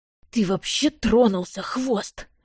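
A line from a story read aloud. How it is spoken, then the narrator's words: Hissing. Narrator (Russian): прошипел тот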